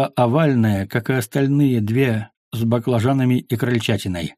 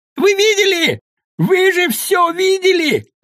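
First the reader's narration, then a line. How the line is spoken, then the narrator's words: Yelling. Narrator (Russian): заорал Студень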